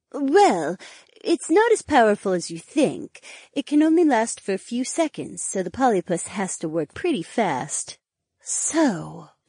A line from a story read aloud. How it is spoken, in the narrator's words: Cleia breathed